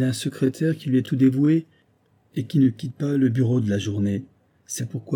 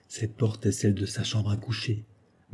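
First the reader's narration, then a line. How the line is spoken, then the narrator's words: Murmured. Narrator (French): murmura Holmes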